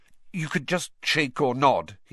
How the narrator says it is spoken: he added hastily

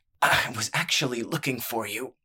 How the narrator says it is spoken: said in a strangled voice

